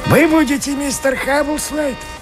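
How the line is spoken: Hoarse question. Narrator (Russian): спросил хриплый голос

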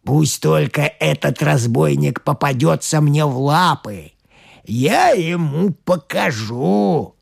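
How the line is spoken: Wolf's growl. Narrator (Russian): зарычал волк

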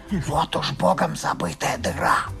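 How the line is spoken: Whisper. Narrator (Russian): один вельможа, споткнувшись о камень, шепнул другому

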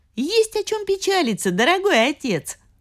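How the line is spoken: Cheerful. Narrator (Russian): весело сказала Фантагиро

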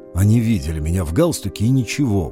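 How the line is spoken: Grumbled. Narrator (Russian): буркнул я

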